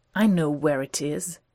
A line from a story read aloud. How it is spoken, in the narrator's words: Sherlock says irritably